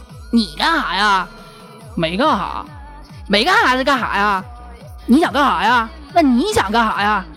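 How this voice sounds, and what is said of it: Imitated Northeastern Chinese accent. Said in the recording (Chinese): “学大东北这边的方言啊 ... 东北那边口音的段子啊 ... 我要是学的不好听的话”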